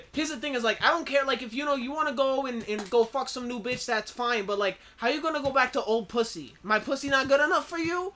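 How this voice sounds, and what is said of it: Poor imitation, New Jersey-sounding accent. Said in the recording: “that's a terrible Cardi B accent. You sounded like you were from New Jersey.”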